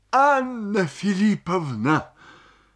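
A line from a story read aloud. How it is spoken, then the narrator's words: Sobbing. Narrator (Russian): сказал он, всхлипывая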